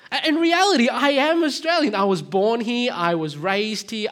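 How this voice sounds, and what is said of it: Australian accent. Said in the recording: “I've got the accent. I am Australian.”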